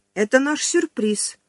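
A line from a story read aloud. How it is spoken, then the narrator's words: Joyful chirp. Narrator (Russian): радостно прощебетала Сонька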